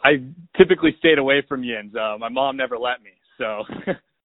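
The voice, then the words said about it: Pittsburgh accent. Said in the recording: “dialect things, but for the most part, uh, it's usually just accent type stuff ... color, very well. It comes out as Keller most of the time.”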